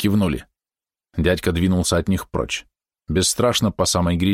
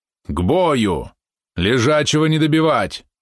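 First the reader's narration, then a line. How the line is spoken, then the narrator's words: Booming. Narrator (Russian): прогремел он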